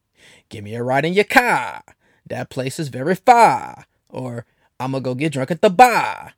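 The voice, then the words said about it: Put-on accent dropping R's. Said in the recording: “sound like a whole episode of Family Guy ... they don't pronounce their R's ... that's the accent where you're from”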